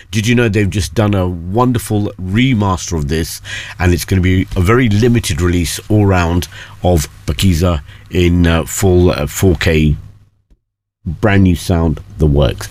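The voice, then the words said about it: Excited, enthusiastic speaking voice. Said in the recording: “You can hear the excitement in my voice.”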